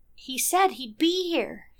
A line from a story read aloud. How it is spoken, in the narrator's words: said, her voice wavering